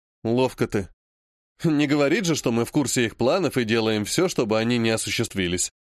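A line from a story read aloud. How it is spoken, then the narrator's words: Snorting hum. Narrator (Russian): хмыкнул Олег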